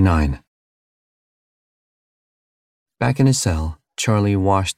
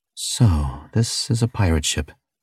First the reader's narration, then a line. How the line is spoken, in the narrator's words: he muttered